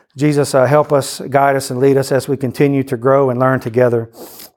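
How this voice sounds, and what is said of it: Speaks with a noticeable accent. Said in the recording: “hear through my accent”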